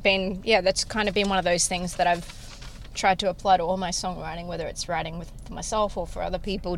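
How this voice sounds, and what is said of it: Australian accent. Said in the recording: “your Australian accent”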